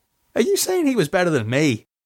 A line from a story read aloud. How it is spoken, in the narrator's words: She laughed